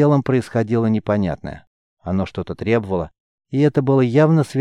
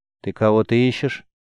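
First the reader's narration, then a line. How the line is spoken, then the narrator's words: Dry, somewhat stern. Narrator (Russian): Голос прозвучал сухо и несколько строго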